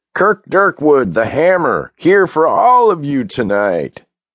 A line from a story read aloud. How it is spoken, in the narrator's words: the guy with the microphone yells